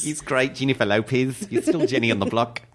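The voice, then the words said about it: Put-on Australian/New Zealand accent. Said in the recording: “I feel like I'm doing a little more New Zealand than Australian... New Zealand goes up a bit.”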